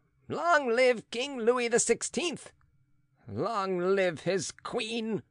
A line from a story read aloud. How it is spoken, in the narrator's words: yelled the young man in a shrill voice, as if he were insulting the new rulers rather than greeting them